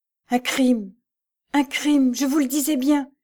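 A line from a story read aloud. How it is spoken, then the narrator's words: Choked. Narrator (French): répliqua Jeanne d'une voix étranglée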